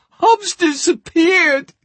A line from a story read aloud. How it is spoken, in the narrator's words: she screamed